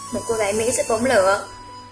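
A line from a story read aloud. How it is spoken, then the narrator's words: Amused smiling speech. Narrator (Vietnamese): Hải Dương mỉm cười tủm tỉm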